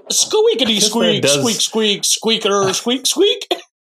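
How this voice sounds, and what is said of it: Squeaky squirrel voice like Porky Pig. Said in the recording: “I guess that squirrel does sound like Porky the Pig, like the way you just said it. ... My impersonation of the squirrel”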